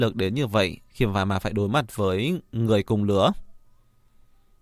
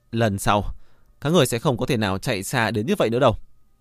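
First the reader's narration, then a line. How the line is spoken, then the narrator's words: Angry. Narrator (Vietnamese): Hắn ta giận dữ nói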